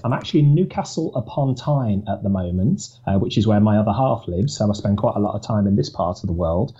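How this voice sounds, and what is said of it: Birmingham accent. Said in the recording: “as any of your listeners will be able to tell from the accent, I think, I'm from Birmingham”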